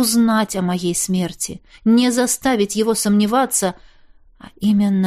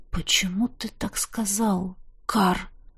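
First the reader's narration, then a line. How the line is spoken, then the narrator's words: Frightened whisper. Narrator (Russian): Холодея от жутковатой догадки, прошептал я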